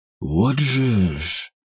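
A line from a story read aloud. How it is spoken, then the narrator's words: Mutter. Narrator (Russian): пробормотал Степан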